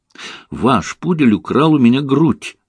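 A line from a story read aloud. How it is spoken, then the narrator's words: Indignant exclamation. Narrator (Russian): с возмущением воскликнула я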